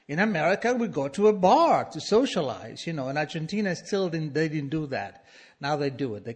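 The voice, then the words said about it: Non-native English accent. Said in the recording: “my accent... I had an accent... it's very lovely”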